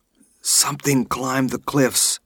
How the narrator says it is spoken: she whispered

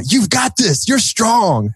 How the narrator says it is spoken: yell

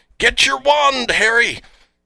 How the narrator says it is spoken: Someone yells out

